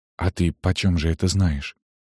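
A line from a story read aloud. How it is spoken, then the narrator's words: Near-whispered question. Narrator (Russian): спросила почти шепотом Галина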